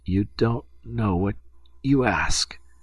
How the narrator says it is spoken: murmured Lieutenant D'Hubert in a feeble voice

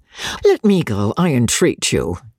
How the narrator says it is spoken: George said

